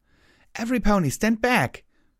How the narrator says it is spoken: she cried out

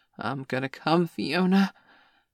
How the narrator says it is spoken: he suddenly gasped

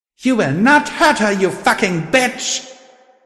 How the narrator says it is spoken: I screamed, amplifying my voice

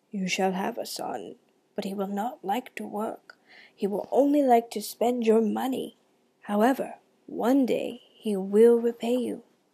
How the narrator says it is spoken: The river spirit answered in a gurgly voice

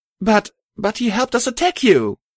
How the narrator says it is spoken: Sunshine shouted

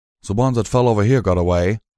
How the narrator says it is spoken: Calamity called out

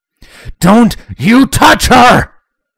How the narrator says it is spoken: Spike shouted in anger

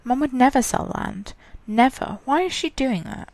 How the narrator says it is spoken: Lindsay mumbled to herself

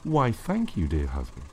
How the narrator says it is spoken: purred

